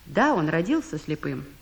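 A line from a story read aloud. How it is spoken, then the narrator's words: Plain. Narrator (Russian): ответила мать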